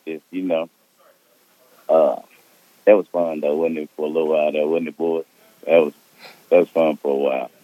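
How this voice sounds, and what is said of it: Hoarse, strained voice. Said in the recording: “lost my voice from screaming”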